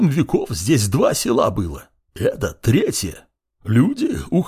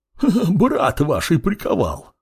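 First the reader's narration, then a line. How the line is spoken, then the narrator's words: Short laugh. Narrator (Russian): хохотнула она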